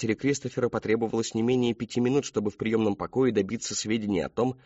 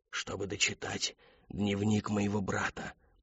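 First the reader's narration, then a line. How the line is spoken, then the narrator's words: Whispered. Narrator (Russian): прошептал он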